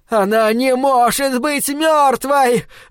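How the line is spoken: Screamed. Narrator (Russian): завопила Энни Уилкс

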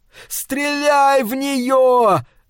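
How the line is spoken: Yelling. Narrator (Russian): заорал Пол

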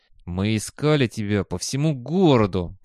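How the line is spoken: Through gritted teeth. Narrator (Russian): процедил один из инструкторов

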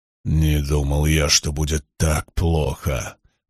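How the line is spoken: Muttered. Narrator (Russian): пробормотал Хаман

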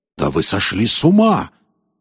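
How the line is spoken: Exclamation. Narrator (Russian): воскликнул Холихед

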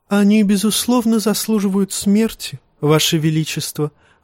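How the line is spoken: Sighing. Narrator (Russian): вздохнул Варис

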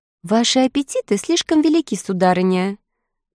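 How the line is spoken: Mocking. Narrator (Russian): насмешливо заметила красавица Стелла

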